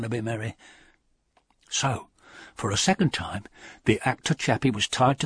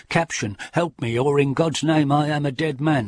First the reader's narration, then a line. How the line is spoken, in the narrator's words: For a second time, Barnaby Merry cried